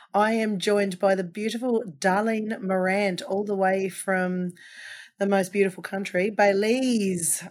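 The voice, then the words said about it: Slightly croaky, hoarse voice. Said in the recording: “laryngitis, so I am a little croakier than normal, but I'm glad to have most of my voice back after losing it for the week”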